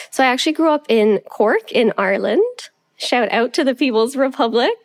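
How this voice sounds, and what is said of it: Canadian-sounding accent, subtle Irish. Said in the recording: “you sound quite Canadian ... sound quite Canadian to me ... it's very subtle ... you might hear the Irish come out more”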